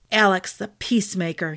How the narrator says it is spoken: growled

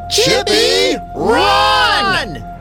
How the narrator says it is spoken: Luke, Nora, and David screamed at the same time

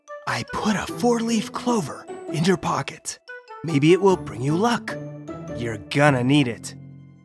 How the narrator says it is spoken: whispered

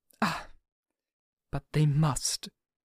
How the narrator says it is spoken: said very gravely

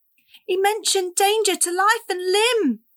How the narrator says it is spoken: Cassie wailed

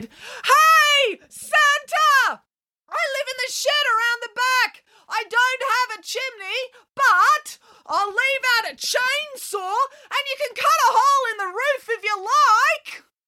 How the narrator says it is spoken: declared, as he leapt up to his full height, waved his arms around and shouted

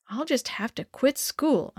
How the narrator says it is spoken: I muttered

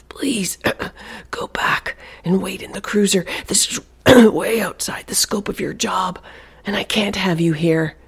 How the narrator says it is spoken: she whispered, her own voice rough and raspy from coughing

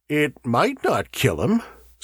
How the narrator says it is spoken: said Burford grimly

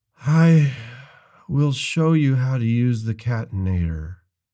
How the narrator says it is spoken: I said weakly

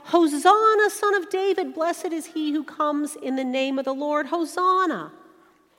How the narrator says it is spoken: folks started to yell

